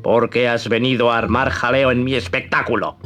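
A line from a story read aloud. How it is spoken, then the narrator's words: Gruff, congested ogre voice. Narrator (Spanish): le dijo con voz de ogro resfriado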